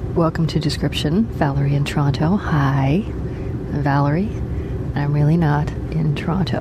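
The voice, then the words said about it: Speaking very quietly. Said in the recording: “why am I talking so quiet?”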